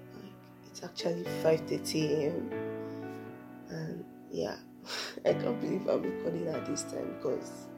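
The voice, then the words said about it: Raspy just-woke-up voice. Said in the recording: “My voice sounds so raspy because I'm just waking up.”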